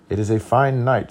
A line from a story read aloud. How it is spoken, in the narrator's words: said